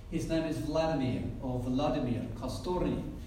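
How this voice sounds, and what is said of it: Put-on Russian accent. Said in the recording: “that's the best Russian accent that I can put on”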